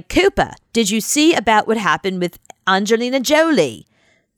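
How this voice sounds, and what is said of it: Poor put-on Australian accent. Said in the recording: “It's a terrible Australian accent.”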